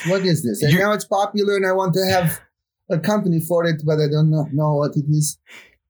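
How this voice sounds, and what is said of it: Mixed foreign-sounding accent. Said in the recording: “What's that accent? It seems like a mishmash of a few things.”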